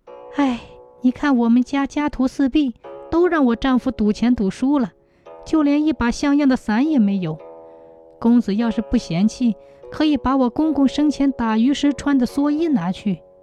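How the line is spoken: Sighing. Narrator (Chinese): 他叹了口气

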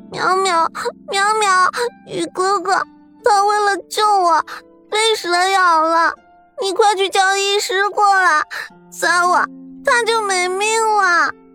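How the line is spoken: Tearful voice. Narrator (Chinese): 真真 带着哭腔说道

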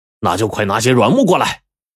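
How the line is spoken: Shouting again. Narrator (Chinese): 他就又喊说

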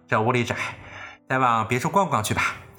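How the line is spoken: Laughing. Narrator (Chinese): 贾母便笑道

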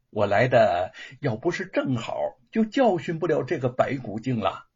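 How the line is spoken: Smiling, low voice. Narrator (Chinese): 吴承恩对父亲一笑，低声的说道

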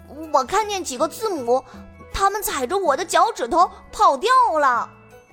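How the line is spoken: Trembling child's shout. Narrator (Chinese): 小表哥的呐喊声，他哆哆嗦嗦地说

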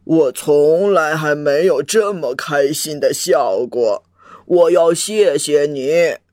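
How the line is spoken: Sighing. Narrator (Chinese): 哎，国王叹了口气

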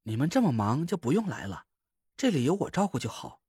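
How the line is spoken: Gentle, smiling. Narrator (Chinese): 蒋亮的媳妇温柔的一笑

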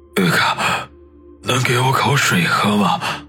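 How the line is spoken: Panting, hoarse voice. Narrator (Chinese): 曲二喘息了几下，嘶哑着声音说道

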